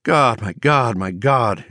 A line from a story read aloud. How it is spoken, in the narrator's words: his mind sobbed